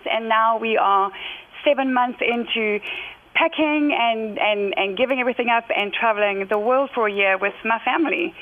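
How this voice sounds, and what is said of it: South African accent with British influence. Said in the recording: “you don't sound like you're from the United States ... I love your British accents. And my British friends say, she's not British. I was born and raised in South Africa, and then at 31 moved over to the UK”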